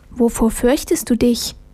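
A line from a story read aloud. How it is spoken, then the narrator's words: Soft voice from darkness. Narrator (German): ertönte es leise aus der Dunkelheit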